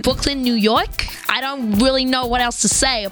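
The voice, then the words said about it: Put-on Brooklyn accent. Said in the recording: “Can you do a Brooklyn accent? ... Yeah, that's really good.”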